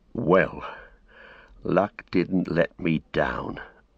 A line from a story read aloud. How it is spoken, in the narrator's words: muttered Sam